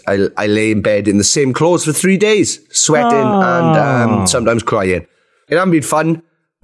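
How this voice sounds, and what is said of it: Sick, unwell-sounding voice. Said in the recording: “As you could probably tell from my voice, I am ill. Very, very ill.”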